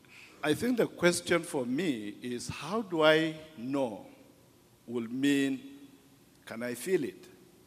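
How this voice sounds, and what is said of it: Speaks with a noticeable accent. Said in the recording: “I hope you'll understand my accent.”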